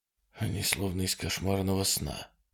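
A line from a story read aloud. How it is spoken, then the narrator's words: Muttered. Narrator (Russian): пробормотал Труман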